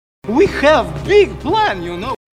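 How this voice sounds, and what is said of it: Comedy Russian accent. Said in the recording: “comedy Russian weapons scientist ... he doesn't ever stop doing that voice”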